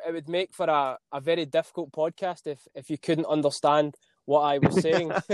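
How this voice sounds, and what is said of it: Scottish accent. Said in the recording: “my Scottish accent”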